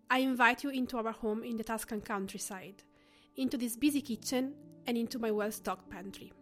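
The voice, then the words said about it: Italian accent. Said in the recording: “Why an Italian accent? Well, I'm pretty sure you can hear it when I talk”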